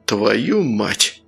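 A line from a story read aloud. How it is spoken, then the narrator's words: Exhaled curse. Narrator (Russian): выдохнул Сергей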